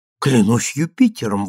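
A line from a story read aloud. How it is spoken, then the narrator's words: Exclamation. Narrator (Russian): воскликнул я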